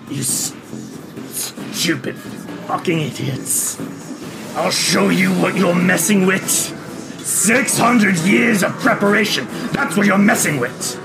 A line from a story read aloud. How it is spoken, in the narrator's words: snarls and says